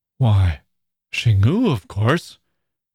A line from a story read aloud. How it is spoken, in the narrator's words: she exclaimed